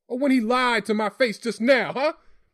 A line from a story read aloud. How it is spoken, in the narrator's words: Dad barked, hurling questions like punches